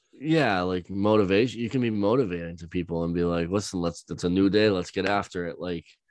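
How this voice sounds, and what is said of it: Usual voice. Nothing is said of it.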